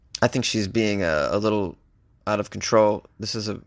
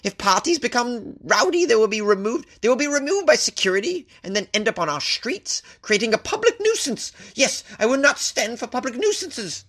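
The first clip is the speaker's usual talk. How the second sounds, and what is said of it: Imitates another person's voice. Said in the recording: “That was my impression of Patricia Thomas of Camden Residents Association. I think it was pretty spot on.”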